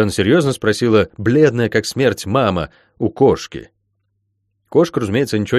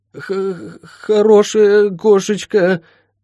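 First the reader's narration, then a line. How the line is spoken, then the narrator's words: Weak, faltering woman's voice. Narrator (Russian): пролепетала мама слабым голосом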